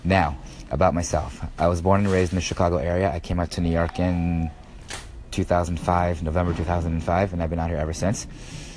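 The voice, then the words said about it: Raspy voice from a cold. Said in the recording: “sorry about my voice. I have a bit of a cold, so it's going to sound a bit raspy.”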